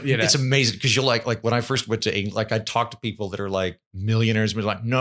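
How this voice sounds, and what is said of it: Usual voice. Nothing is said of it.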